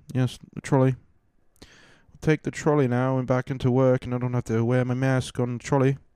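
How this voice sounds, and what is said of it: Put-on British accent. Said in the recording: “I'll talk like a civilized person. It's not an accent you are seeing. This is the way I would talk if I was actually raised in that part of the world.”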